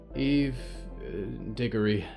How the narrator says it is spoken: Valerie sighed

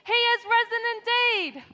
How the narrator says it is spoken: I want you to yell out for me

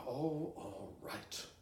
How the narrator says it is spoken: finally muttered

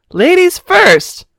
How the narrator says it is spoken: Pamela Purse yelled

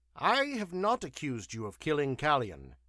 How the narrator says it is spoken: he snapped

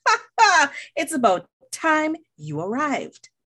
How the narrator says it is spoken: Lion called out

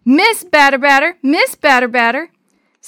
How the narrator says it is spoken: one of the twins yelled

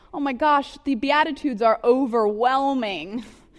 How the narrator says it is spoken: I cried to the Alex office across the way

